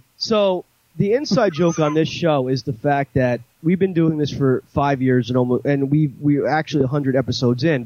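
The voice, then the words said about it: New York / New Jersey accent. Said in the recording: “you do have like a New York, New Jersey accent, but nobody can tell where you're from exactly”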